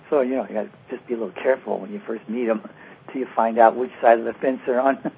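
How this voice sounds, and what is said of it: Strained, worn-out low voice. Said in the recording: “my voice is kind of shot ... I noticed you were speaking rather low today ... I lost my voice”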